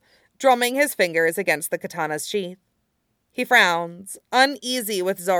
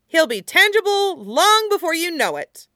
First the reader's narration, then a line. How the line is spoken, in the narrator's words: Usopp exclaims, encouragingly in the face of the captain's blues